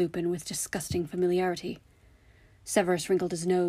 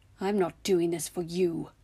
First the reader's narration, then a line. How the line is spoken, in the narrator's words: he snarled